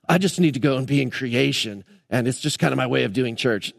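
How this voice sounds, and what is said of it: Mocking, sarcastic tone of voice. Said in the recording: “I'm making fun of them by my tone of voice.”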